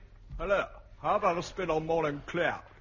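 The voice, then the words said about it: Funny comic character voice. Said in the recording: “you can't say it's not a funny voice”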